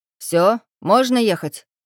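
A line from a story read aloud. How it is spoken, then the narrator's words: Mock-angry question. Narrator (Russian): нарочито-сердито спросил дядька Степан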